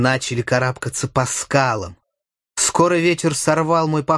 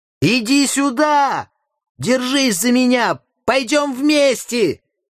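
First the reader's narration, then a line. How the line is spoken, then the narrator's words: Shouting. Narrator (Russian): крикнул я якуту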